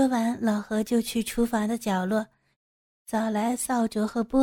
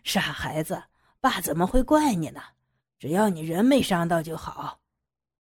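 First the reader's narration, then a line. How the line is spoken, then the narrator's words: Hearty laughing. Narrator (Chinese): 老何爽朗的笑着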